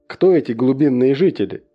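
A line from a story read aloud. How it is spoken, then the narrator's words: Plain. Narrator (Russian): спросил я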